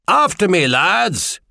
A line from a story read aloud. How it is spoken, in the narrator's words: Brian Lock Island screamed